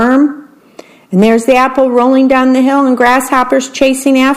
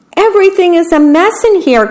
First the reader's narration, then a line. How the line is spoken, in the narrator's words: cried the worm